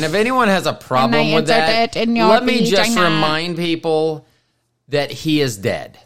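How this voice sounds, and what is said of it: Usual voice. Nothing is said of it.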